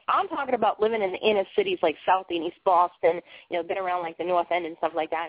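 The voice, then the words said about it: Thick Boston accent. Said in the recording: “I'm originally from Boston, Massachusetts ... this really funky, weird accent ... my accent is sometimes thicker than some of my other friends' accents”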